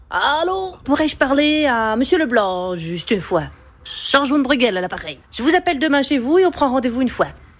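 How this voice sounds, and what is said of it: Half-mastered put-on Belgian accent. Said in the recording (French): “l'accent belge maîtrise à moitié... Je prends l'accent belge ?”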